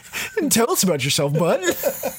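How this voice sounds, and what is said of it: Impression of a friend's impression. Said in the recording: “That was my impression of Adrian doing an impression of me.”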